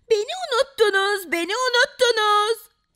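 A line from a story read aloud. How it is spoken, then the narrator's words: Shouting. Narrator (Turkish): diye bağıran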